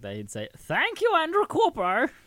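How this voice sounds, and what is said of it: Imitates a character's voice. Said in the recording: “That's a pretty good guru impression, man. ... I always liked doing a guru impression”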